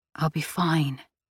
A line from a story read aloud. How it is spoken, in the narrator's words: she said softly